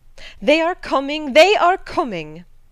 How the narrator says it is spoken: cried Hannah

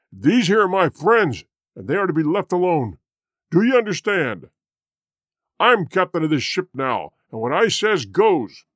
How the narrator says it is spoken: With a loud roar, Black Michael cried

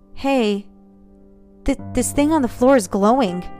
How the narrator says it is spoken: he said, his voice quivering

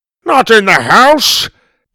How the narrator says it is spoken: both Grandpa and Suzie shouted

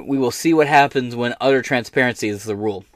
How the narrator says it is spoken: he said

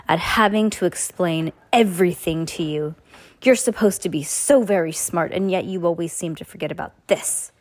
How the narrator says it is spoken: Stefano snarled

